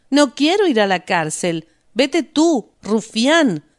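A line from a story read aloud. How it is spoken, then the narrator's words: Angry shout. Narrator (Spanish): gritó Lisa enfadada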